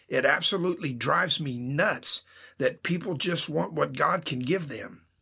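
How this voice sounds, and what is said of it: Passionate, impassioned delivery. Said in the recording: “hear the passion in my voice.”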